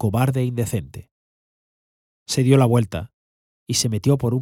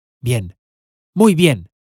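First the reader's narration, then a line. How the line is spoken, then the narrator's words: Powerful, repeated voice. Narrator (Spanish): dos o tres veces, con su voz potente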